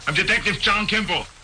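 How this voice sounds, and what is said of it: Thick Austrian accent impression. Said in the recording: “Let me hear the Schwarzenegger drop one more time ... With the thick Austrian accent”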